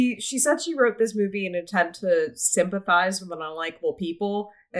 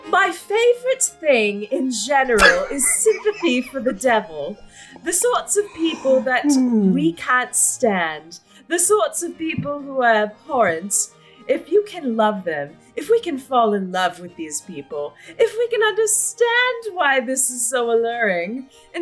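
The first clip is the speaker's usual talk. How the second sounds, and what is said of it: Put-on posh British accent. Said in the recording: “I'm gonna do like a British. I'm gonna be fun and bitchy and do a British accent.”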